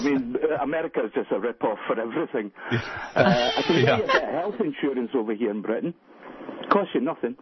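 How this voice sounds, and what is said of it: Scottish accent. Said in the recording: “Scottish accent.”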